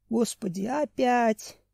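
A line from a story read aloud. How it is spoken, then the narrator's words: Inner groan. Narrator (Russian): мысленно простонал Семен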